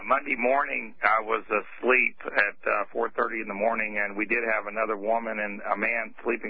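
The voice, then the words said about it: Worn-out, hoarse voice. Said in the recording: “Sorry, my voice is shot.”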